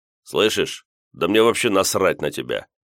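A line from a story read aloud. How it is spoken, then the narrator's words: Deliberately rude reply. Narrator (Russian): нарочно грубо ответил я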